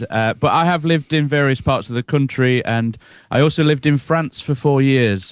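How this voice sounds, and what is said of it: Nottinghamshire English accent. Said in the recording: “Are you from that part of the world? That's sort of the accent I think I can hear. ... Nottinghamshire boy, born and bred.”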